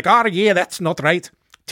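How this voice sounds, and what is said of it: Deliberately bad put-on accent. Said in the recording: “Terrible accent.”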